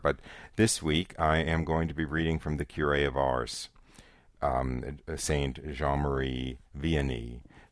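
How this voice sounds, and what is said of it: Slightly hoarse voice. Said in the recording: “I might be a bit hoarse today. I may have a little difficulty with my voice, is the standard airplane colds that come up.”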